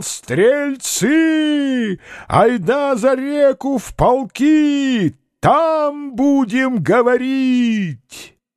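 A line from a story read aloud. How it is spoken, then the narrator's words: Straining shout. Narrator (Russian): тараруй, надсаживаясь, кричал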